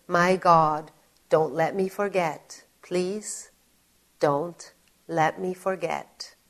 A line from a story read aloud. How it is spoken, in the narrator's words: why I was crying and holding Eric so tightly, and why I was saying